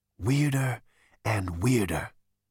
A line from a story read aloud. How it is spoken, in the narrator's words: breathed Zaphod